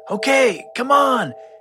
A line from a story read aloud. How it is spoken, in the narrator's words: Finn's dad yelled